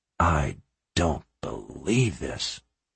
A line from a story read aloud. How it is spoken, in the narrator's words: he whispered